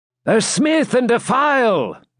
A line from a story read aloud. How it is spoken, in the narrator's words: he cried